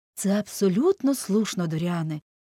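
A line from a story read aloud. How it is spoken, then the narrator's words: Elated, uplifted tone. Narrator (Ukrainian): піднесеним тоном підтвердив Голворд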